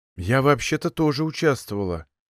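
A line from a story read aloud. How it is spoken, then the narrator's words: Quiet addition. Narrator (Russian): также тихо добавила Софья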